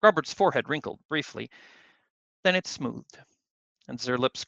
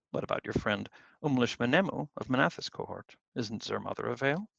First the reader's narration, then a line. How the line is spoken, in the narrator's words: Grobbard paused a moment, then gently